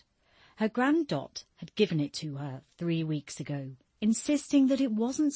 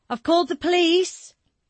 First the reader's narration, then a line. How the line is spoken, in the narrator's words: she cried out, the shake in her voice betraying her